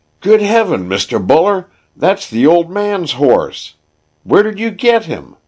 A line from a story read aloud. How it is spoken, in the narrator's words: The foreman cried